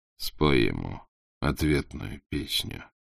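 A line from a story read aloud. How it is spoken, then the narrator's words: Quiet and slow. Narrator (Russian): тихо и медленно сказал Батухан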